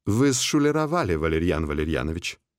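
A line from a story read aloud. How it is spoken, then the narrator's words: Calm voice. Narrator (Russian): спокойным голосом поведал он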